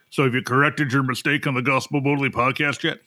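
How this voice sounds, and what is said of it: Imitation of his father's voice. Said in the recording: “He doesn't quite talk like that, but that's my dad voice for here.”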